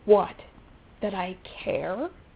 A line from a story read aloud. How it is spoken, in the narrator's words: Rodney sneered